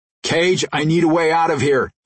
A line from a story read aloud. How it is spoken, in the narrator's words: he shouted over his shoulder